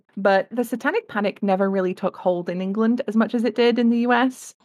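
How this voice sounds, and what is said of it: English accent. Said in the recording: “I come from England, as you can probably tell by the accent.”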